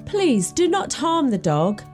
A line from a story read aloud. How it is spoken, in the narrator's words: pleaded the young and tender-hearted fellow